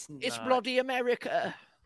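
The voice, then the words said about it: Put-on British accent. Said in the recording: “But did she do it in a British accent?”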